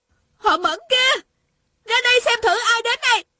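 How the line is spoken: Shouted. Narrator (Vietnamese): Tiêu Uyển Nhi la lên

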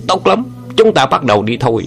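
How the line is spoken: Furious shout. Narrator (Vietnamese): Sông quái cả giận quát lớn

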